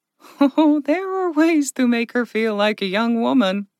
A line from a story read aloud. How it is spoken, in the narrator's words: Verka giggled